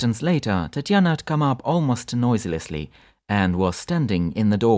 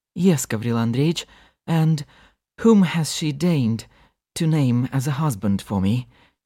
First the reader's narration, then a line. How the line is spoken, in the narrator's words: added falteringly